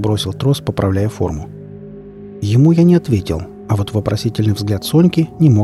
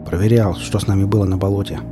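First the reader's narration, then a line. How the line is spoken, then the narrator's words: Gruff grumble. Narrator (Russian): буркнул я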